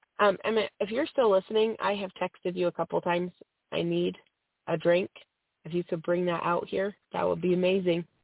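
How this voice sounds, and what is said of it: Strained, fading voice from a cold. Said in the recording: “I'm losing my voice. I have a cold, and it's hard to keep talking without coughing ... I am, like, parched”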